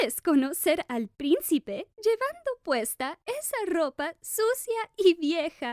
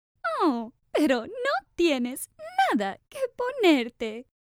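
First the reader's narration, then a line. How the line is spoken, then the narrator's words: Stepsister laughing. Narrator (Spanish): rió la hermanastra mayor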